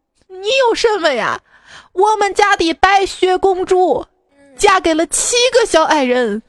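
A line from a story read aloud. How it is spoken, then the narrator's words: Sobbing. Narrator (Chinese): 国王失声痛哭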